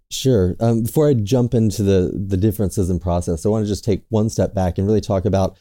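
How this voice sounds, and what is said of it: American New York accent. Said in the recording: “people can probably tell from the accent that you're part of Macquarie's team in the Americas and you're based in New York”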